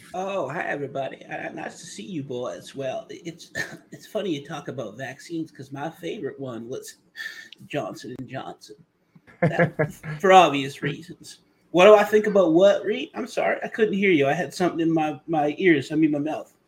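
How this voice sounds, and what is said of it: Imitates another person's voice. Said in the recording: “do an impersonation ... Lindsey Graham”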